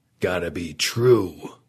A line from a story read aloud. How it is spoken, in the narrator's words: Perlman grumbled